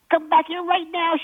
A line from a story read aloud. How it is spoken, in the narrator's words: shouted Gloria